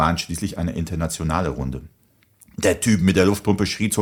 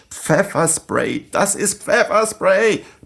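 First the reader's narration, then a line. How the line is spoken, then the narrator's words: Panicked screaming. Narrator (German): schrien panisch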